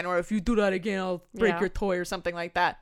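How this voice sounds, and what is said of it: Bad Arnold Schwarzenegger impression. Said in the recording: “terrible Arnold Schwarzenegger impression.”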